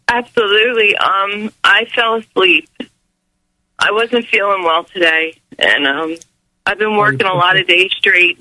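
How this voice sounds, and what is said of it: Sick, rough throaty voice. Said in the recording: “You sound awful. Like you sound awful. ... you got something caught in your throat, darling, like a maggot.”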